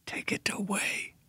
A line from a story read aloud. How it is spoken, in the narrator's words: he whispered